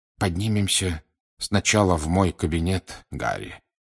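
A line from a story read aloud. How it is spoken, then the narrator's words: Quiet. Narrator (Russian): тихо сказал директор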